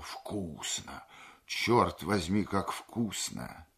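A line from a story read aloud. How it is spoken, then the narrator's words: Exclaiming. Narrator (Russian): он воскликнул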